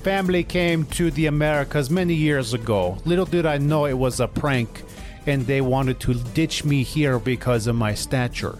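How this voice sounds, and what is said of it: Faltering put-on Russian accent. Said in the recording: “your accent's faltering a little bit here ... you speak with a Russian accent”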